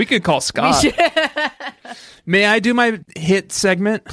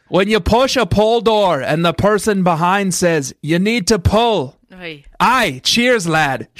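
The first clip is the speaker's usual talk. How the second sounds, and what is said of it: Attempted Scottish accent. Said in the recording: “good as a Scottish accent as you, but I'm going to give it a shot ... demands being read like a Scot”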